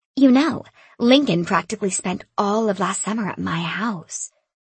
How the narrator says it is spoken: she purred

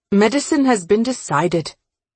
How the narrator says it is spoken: she said

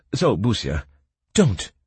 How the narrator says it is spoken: she snapped

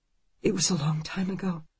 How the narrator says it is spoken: she whispers

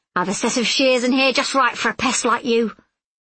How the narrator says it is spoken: she exclaimed

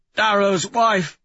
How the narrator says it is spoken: Severo croaks, larynx damaged

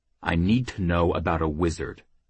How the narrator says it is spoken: Jackal snarled

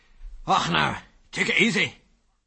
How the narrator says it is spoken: said a strange voice in a strong Scots accent

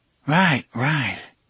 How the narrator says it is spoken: the cop breathed

